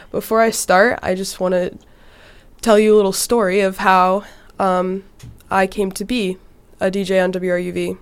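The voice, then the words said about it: Sick-sounding, rough voice. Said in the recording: “I am a little sick right now, so that's kind of why my voice sounds like that. My roommates told me it's sexy”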